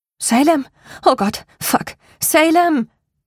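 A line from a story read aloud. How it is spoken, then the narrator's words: Gasping, breathless. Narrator (German): Keuchend lag ich stocksteif da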